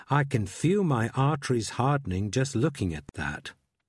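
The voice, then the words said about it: Mock American accent. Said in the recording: “putting on a mock American accent.”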